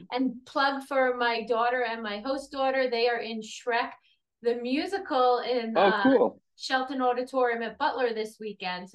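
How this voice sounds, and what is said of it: Brooklyn New York accent. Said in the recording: “I grew up in Brooklyn, New York. In case you haven't heard the accent, you will hear it soon.”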